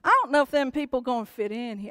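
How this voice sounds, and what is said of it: Put-on East Tennessee accent. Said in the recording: “I'm going to try to get my East Tennessee accent going. ... We're not that redneck in East Tennessee.”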